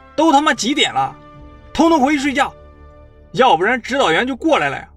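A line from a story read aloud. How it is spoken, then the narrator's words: Loud shouting. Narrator (Chinese): 他……就大声地喊道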